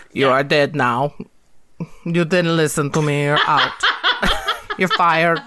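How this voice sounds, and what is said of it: Imitates another person's voice, weak accent. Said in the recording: “My Putin accent isn't that great today”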